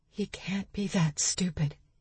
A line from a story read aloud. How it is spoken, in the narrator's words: she said, her voice like a whisper